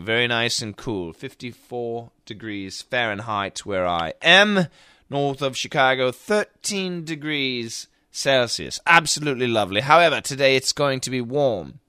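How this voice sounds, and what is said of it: Put-on slight British accent. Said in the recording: “I'm using a bit of a British accent right now, but I'll stop.”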